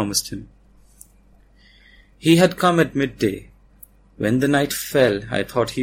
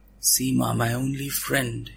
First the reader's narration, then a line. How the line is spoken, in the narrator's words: whispered